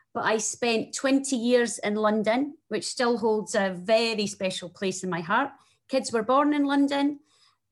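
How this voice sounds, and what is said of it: Strong Scottish accent. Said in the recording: “my very strong Scottish accent”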